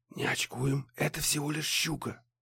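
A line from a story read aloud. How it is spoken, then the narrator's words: Whispered. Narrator (Russian): прошептал Муха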